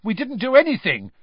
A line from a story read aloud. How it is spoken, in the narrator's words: said Ron, looking indignantly at his father